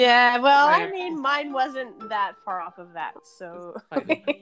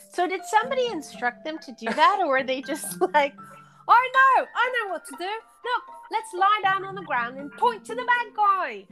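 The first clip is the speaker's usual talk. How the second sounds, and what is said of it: Put-on British accent. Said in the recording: “they're British ... that's such a good accent.”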